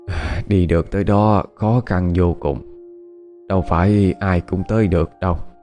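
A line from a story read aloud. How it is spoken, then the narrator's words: Elderly person sighing. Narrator (Vietnamese): Cụ cố nghe nói vậy thì liền thở dài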